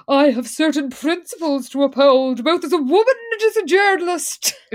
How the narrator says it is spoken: And Liz pompously says

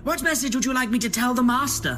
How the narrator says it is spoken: He called out with glee

